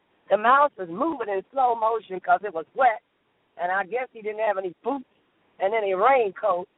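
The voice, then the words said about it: Hoarse voice. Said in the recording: “I am very hoarse this morning”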